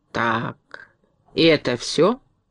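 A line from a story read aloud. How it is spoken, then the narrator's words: Calm question, woodcutter. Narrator (Russian): спокойно спросил дровосек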